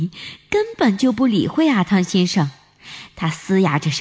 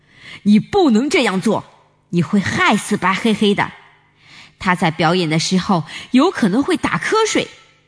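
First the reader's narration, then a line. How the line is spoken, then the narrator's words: Loud, angry. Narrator (Chinese): 阿汤先生也用很愤怒的声音大声地说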